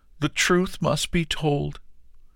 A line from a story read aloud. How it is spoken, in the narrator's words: cried the farmer